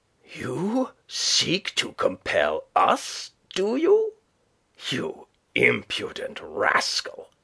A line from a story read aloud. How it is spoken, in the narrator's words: he growled